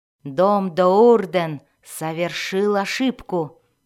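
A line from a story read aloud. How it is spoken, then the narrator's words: Growled. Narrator (Russian): прорычала она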